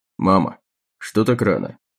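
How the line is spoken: Dry question. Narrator (Russian): сухо спросил он

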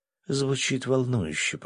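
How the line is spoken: Whisper. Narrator (Russian): прошептала она

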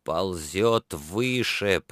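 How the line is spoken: Pained grumble through clenched teeth. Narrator (Russian): проворчал он сквозь стиснутые зубы, едва подавляя настоящий стон

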